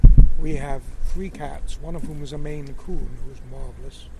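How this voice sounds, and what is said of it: Calm British accent. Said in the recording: “his British accent, but just the way he talks, I just felt very calm and relaxed”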